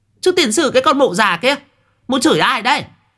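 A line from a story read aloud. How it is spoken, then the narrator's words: Screaming. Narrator (Vietnamese): Miệng của à gào lên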